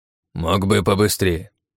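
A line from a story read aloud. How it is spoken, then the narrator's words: Old man's mild grumble. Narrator (Russian): беззлобно проворчал дед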